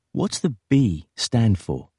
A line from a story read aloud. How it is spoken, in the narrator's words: said